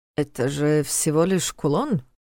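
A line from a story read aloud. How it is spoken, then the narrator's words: Slightly confused explanation. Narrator (Russian): Немного растерянно объяснил тот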